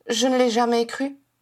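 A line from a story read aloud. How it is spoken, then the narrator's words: Flat, toneless voice. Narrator (French): assura Edmund d'une voix blanche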